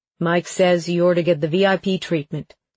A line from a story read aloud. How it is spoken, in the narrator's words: Lane said, his voice deep and rich